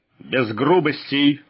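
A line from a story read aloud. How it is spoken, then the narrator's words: Growled. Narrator (Russian): рыкнул Волк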